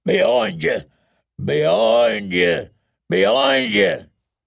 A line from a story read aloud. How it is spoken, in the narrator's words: the big man was bellowing